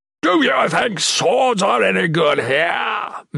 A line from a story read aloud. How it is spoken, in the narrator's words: Mikik thundered